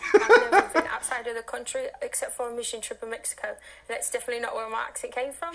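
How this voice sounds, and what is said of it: British accent, not posh. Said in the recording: “a new British accent ... she sounds like a Spice Girl ... It's not super posh.”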